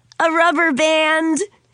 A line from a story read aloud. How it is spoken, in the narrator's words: George laughed hard at his own joke